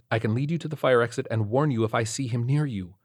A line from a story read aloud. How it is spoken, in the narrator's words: Doug whispered